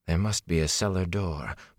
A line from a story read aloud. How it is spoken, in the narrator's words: Moraine muttered